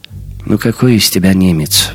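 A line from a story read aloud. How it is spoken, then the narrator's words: Sighing. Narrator (Russian): вздохнул Жером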